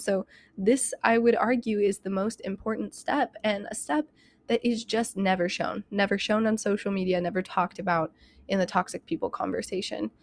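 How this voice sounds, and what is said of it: Breathless, talking very fast. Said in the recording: “I'm like out of breath. I don't know why I'm like talking so fast. I like get out of breath.”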